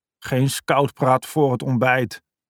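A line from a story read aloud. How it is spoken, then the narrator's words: Grumbled. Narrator (Dutch): bromde Robbe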